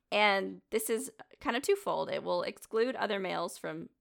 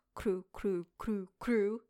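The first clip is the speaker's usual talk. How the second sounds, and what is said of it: Imitates a male owl call. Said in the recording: “the males will do a ... sound. That's my best impression.”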